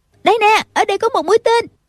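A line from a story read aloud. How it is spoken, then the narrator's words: Distant shout. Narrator (Vietnamese): Tần Quyên từ trên con đường mé phải la lên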